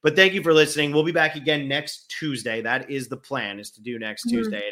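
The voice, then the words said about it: Tired, strained voice with head cold. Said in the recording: “I'm exhausted at this point. My throat can't handle it. I have a head cold. I feel awful.”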